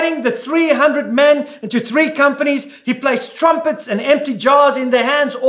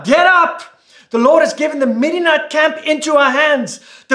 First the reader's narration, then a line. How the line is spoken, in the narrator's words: he called out